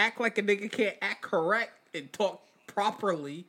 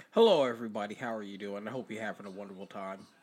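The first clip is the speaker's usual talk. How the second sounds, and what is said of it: Polished formal interview voice. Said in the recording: “put on his best interview voice ... I bet motherfuckers thought that was a whole different person”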